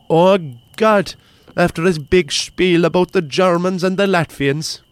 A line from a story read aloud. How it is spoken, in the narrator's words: cried Sean